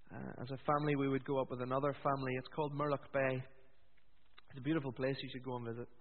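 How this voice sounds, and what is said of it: Northern Irish accent. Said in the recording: “You may detect from my accent that I'm from Northern Ireland.”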